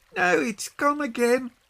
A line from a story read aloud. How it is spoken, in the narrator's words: cried Peggy